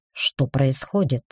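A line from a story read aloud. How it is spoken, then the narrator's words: Bewildered muttering. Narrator (Russian): пробормотал в полнейшем недоумении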